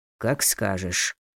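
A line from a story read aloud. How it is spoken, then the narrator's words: Muttered. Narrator (Russian): пробормотал генерал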